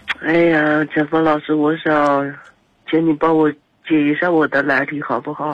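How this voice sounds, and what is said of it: Noticeable regional accent. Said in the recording (Chinese): “你有点口音，我没太听懂”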